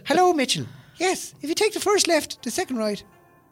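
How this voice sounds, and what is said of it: Put-on Irish accent as Siri. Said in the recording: “Siri's an Irishman on my phone. Literally has an Irish accent ... to be a paddy”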